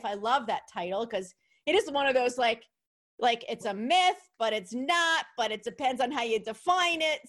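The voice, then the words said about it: New York accent. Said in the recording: “I'm sure my New York accent just came through. I don't know why. You inspired my New York accent.”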